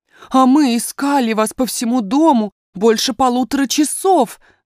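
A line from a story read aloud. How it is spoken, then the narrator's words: Nanny's exclamation. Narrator (Russian): воскликнула няня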